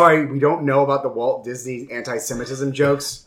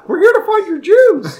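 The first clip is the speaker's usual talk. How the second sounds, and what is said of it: Mickey Mouse impression. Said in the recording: “do a Mickey voice”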